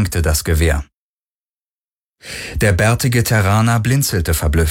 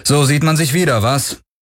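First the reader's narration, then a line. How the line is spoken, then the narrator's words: Cool, unfriendly call. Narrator (German): rief Garlin ohne große Herzlichkeit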